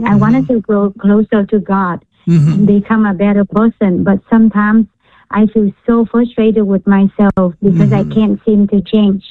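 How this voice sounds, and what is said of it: Vietnamese accent. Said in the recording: “Are you Vietnamese? ... You can tell by my accent.”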